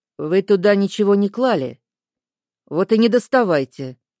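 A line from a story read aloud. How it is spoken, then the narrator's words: Stern man's order. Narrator (Russian): строго велел мужчина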